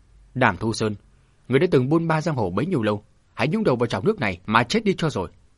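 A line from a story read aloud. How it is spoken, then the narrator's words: Shouting. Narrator (Vietnamese): Vương Cam Nương quát giống lên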